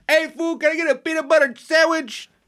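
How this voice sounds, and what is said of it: Yelling imitation of another person's voice. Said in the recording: “he's always yelling, too ... That's my impression.”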